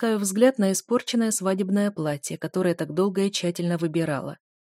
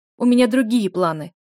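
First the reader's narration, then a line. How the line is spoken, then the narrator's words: Sharp reply. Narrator (Russian): резко отвечаю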